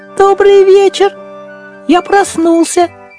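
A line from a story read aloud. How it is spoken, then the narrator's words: Little mouse squeak. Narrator (Russian): пропищал мышонок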